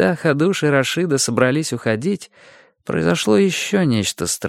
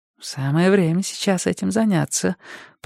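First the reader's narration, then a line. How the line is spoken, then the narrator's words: Purring. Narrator (Russian): промурлыкала Рашида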